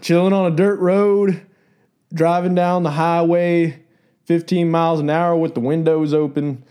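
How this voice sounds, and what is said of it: Put-on Southern redneck country accent. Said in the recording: “Your redneck music, accent is the, spot on.”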